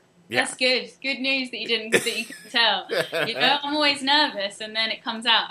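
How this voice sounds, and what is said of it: British accent. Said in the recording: “I just love the British accent... ladies with awesome British accents... I come out with my British accent”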